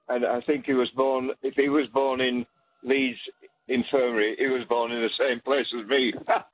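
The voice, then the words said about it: Leeds English accent. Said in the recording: “Where is your accent from? ... Leeds.”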